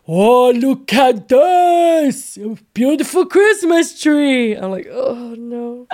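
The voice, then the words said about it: Imitates another person's voice. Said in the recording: “Do your daughter's impression again ... in his accent”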